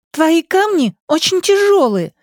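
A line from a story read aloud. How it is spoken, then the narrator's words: Offended little girl. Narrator (Russian): обиженно заявила девочка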